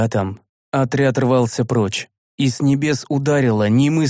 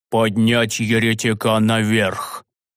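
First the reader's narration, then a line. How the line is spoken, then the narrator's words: Furious, through gritted teeth. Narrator (Russian): Сквозь зубы яростно произнес седой священник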